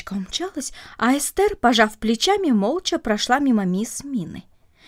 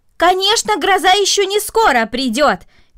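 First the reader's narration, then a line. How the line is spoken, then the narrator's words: Shouted. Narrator (Russian): крикнула мисс Мина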